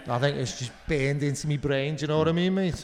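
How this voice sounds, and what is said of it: Put-on Liverpool Scouse accent. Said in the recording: “doing a Liverpool accent to Liverpudlians ... I can do it, though. I can do it ... It's just such an expressive accent.”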